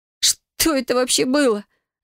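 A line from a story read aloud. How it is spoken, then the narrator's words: Whimpering. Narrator (Russian): захныкала я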